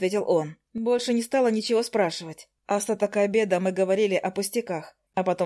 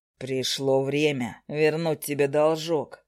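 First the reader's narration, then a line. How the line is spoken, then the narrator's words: Through gritted teeth. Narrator (Russian): процедил староста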